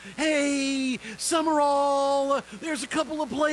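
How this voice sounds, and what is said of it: Usual voice. Nothing is said of it.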